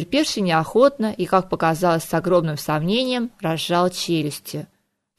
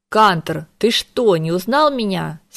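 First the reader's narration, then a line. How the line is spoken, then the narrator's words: Angry reply. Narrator (Russian): сердито отозвалась голова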